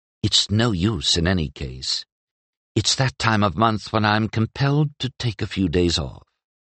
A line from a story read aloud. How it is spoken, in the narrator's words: Penric leaned down to Chadro's ear and whispered conspiratorially behind his hand